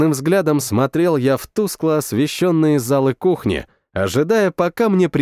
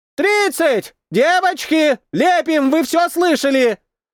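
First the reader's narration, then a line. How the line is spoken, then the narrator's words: Distant shout. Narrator (Russian): Закричал кто-то из глубины кафешки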